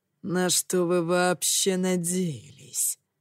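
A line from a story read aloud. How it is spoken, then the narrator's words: Growl. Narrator (Russian): прорычал я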